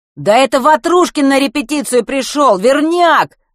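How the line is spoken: Ringing yell. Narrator (Russian): звонко завопил кто-то с первого ряда

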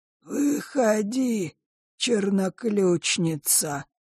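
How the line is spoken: Creaky voice. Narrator (Russian): проскрипел клокер

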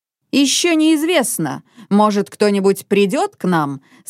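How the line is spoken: Plain. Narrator (Russian): сказал он

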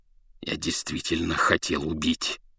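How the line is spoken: Snarling through bared teeth. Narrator (Russian): зарычал он, скаля желтые зубы

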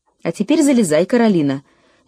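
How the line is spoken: Cheerful exclamation. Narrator (Russian): весело воскликнул папа

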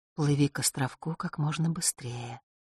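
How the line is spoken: Small voice whispering. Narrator (Russian): опять зашептал на ухо голосок Клементины

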